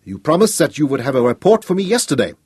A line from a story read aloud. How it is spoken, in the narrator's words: he snapped at Nogo